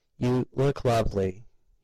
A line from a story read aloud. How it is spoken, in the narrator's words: he said, almost choking on the words